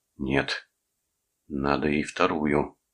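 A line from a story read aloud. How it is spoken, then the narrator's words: Desperate moan. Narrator (Russian): в отчаянии простонал Торн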